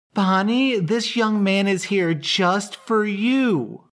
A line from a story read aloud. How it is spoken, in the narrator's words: Margaret practically shouted